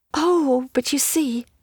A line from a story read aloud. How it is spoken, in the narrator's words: cried, holding her throat